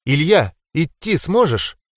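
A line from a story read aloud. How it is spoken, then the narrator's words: Excited, breathless blurt. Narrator (Russian): взволнованно выпалила Ранза, подбежав ко мне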